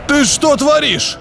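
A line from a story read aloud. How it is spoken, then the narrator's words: Roaring. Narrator (Russian): проревел побледневший Георгий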